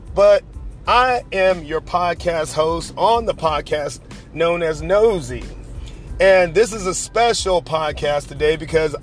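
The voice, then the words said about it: Hoarse, worn-out voice. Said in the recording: “My voice is kind of broke right now because I've done so many classes this week.”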